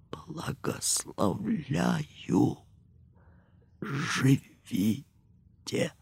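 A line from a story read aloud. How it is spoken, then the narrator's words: Faint dying whisper. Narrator (Russian): Голосом, уже звучавшим на рубеже двух миров, он тихо прошептал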